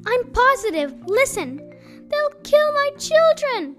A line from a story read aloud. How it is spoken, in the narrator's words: cried Mrs